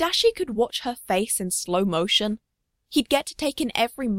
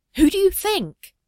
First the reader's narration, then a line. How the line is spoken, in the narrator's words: Tadashi blurts